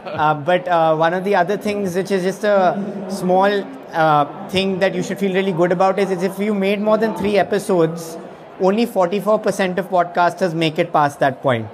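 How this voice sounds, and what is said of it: Speaker's own noticeable accent. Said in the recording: “If you can understand my accent”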